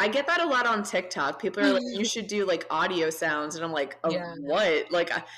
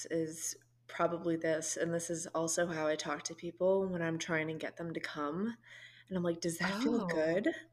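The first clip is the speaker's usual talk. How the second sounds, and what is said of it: Soft ASMR-style voice. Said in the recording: “your ASMR voice ... My ASMR voice”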